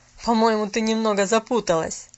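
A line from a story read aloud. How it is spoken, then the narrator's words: Speaking through laughter. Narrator (Russian): проговорил сквозь смех мистер Пендлтон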